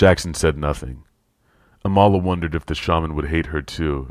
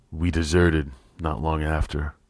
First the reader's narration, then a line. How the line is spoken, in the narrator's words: Pierce added quietly